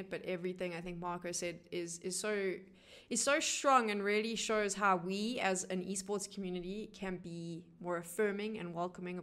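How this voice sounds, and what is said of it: Strained, fading voice. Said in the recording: “I'm losing my voice now and I apologize”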